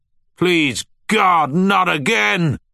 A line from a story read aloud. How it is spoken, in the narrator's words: shouted, as a wave of rocks, snow and rubble came crashing down